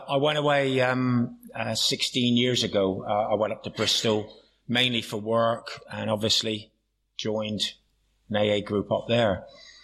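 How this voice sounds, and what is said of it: Plymouth Janner accent. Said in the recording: “do I sound like a janner? Yeah. Excellent. I'm glad I haven't lost it.”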